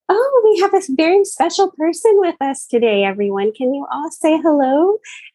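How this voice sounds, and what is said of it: Simpering, sugary teacher voice. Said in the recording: “she puts on a simpering voice”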